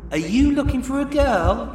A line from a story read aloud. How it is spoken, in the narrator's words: Sexily, Maureen cooed